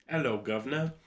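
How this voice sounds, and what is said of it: Attempted British accent. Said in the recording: “Do you want to do a British accent? ... Try and do your best British accent.”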